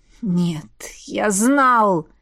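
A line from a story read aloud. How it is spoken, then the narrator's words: Moaning. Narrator (Russian): простонал Сейлрим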